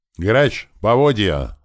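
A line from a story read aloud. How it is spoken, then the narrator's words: Shout. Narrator (Russian): закричал я ему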